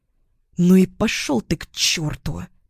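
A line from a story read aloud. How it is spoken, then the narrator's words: Hissed. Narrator (Russian): Прошипела я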